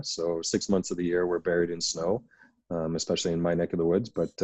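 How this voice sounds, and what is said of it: Canadian English accent. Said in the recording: “as everyone can tell by my accent, I'm from Canada.”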